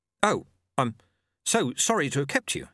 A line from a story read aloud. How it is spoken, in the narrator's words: said